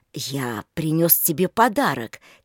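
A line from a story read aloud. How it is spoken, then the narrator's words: Quiet. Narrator (Russian): тихо сказал Олег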